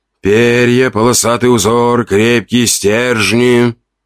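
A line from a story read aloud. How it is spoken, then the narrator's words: Calm, almost singsong. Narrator (Russian): Спокойно, почти нараспев, произнес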